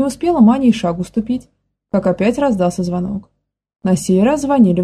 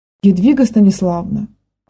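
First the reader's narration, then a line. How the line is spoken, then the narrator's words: Offended exclamation. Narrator (Russian): оскорбленно воскликнула Маня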